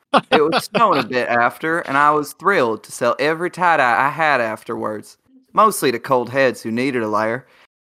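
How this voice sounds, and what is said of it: Put-on American Southern accent. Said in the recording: “Southern accent? Southern accent? ... The American right? South, yes.”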